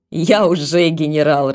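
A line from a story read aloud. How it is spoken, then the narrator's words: Laughing. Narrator (Russian): рассмеялся Еровшин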